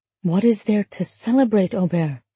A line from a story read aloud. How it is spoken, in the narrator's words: She whispered